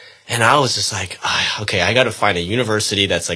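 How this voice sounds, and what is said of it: Usual voice. Nothing is said of it.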